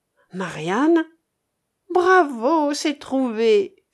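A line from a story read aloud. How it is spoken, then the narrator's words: Exclaimed. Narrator (French): s'écria Philine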